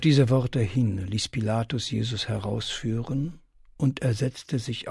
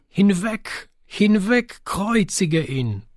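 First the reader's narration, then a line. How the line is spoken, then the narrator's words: Crowd screaming. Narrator (German): Sie aber schrien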